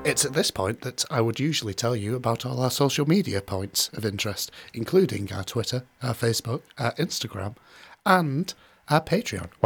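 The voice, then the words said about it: Husky, sexy low voice. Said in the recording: “sexy voice ... It really was quite sexy though ... Went quite husky.”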